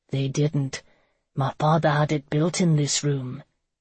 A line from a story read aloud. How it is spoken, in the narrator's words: He ... murmured